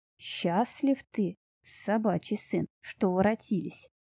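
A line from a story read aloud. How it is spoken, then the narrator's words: Hoarse bass. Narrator (Russian): говорил он хриплым басом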